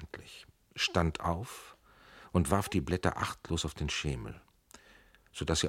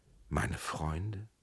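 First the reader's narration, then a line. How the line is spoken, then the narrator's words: Soft, tearful. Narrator (German): sagte Amalie leise, und schon standen ihre Augen voll Tränen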